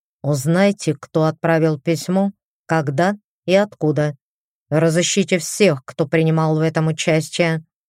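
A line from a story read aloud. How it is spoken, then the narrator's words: Growl. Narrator (Russian): прорычал он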